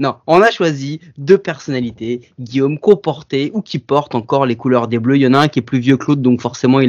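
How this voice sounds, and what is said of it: Usual voice. Nothing is said of it.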